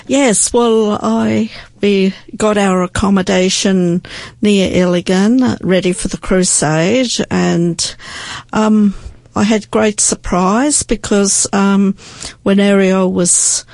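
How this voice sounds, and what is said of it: Australian accent. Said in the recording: “our Aussie slang ... We can't get rid of a bit of our accent, too.”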